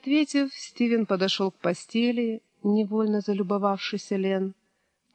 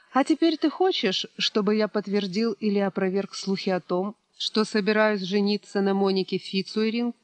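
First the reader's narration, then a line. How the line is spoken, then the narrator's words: Calm question. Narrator (Russian): спокойно спросил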